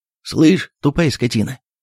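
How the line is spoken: Shout. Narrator (Russian): крикнул Иван Дмитриевич

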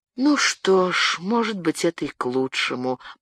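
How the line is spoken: Resigned sigh. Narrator (Russian): покорно вздохнул Дезавенель

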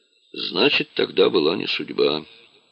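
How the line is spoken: Quiet. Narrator (Russian): негромко сказал он

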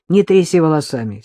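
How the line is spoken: Angry snap. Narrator (Russian): сердито огрызнулся Бабкин

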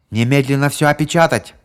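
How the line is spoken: Familiar voice shouting. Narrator (Russian): прокричал голос, знакомый обоим полицейским

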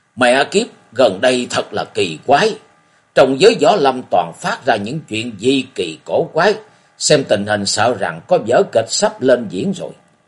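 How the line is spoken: Loud burly man's voice. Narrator (Vietnamese): một người trong đám trạc tuổi tam tuần, có thân hình vạm vỡ khô kệch, lớn tiếng nói

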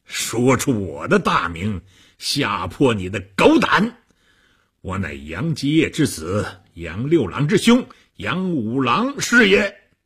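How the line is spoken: Hearty laughter. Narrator (Chinese): 和尚哈哈大笑

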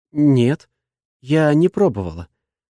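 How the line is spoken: Frightened answer. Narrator (Russian): отвечает испуганно, будто я намерен отчитать ее за какой-то проступок

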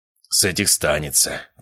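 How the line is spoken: Muttered under breath. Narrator (Russian): пробормотал отец себе под нос

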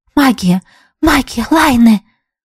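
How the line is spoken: Whisper. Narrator (Russian): прошептала подруга

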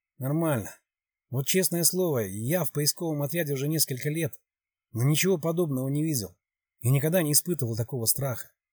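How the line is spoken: Quiet reply. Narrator (Russian): Один из парней поднял глаза на полицейского и тихо ответил

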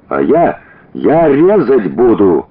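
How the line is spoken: Father yelling after. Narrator (Russian): завопил вслед отец

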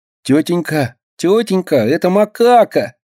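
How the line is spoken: Nasal whine. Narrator (Russian): гнусавит Минька

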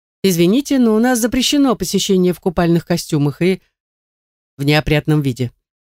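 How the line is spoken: Man, lordly unhurried tone. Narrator (Russian): мужчина, лет 30, вальяжным тоном заявляет

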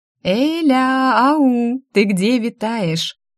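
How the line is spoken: Laughing. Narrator (Russian): Засмеялась она

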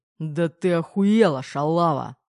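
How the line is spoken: Growling. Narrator (Russian): рыкнул Пи-3

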